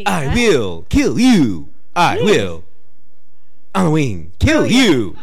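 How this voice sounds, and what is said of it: Imitates another person's voice. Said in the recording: “your William Shatner impersonation”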